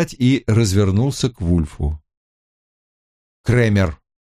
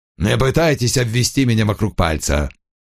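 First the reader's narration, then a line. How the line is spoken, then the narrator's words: Grumbling. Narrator (Russian): проворчал Крэмер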